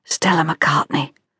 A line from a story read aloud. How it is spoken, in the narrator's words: whispered the woman behind